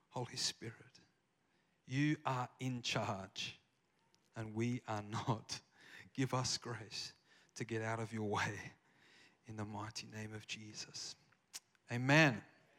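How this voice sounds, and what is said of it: Australian accent. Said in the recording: “I have an Australian accent, if you can't tell. I haven't lost it.”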